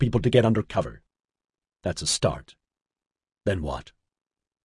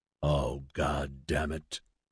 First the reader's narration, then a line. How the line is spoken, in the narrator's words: Raphael grunted